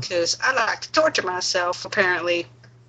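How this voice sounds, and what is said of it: Put-on southern accent. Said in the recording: “I like how you say that with a southern accent. That was kind of sexy.”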